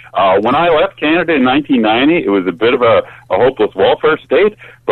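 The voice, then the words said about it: Canadian accent. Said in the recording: “You sound like a Canadian ... I still haven't, uh, you know, lost my accent.”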